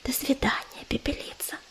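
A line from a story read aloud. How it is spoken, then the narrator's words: Whispering. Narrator (Russian): прошептала она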